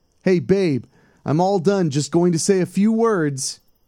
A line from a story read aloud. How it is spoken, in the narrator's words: Tom yelled